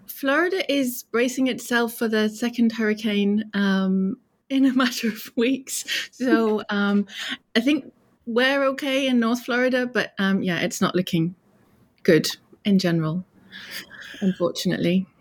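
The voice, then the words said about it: British accent. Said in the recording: “you did your accent. ... No, I'm British.”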